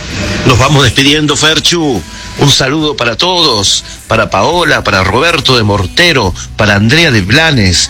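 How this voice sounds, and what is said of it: Radio announcer voice, good timbre. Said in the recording (Spanish): “¿Tiene una voz de locutor usted? ... Tiene un buen timbre de voz.”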